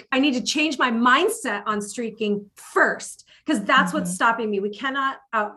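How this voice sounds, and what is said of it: Excited yelling. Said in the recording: “I'm yelling. Sorry, I get really excited.”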